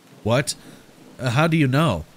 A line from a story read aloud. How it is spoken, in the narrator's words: Mark demanded, his voice cracked with anxiety